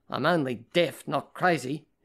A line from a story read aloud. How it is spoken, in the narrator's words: his mother snapped